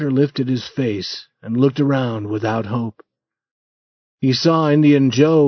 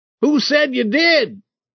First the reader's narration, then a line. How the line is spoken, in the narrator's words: a voice shouted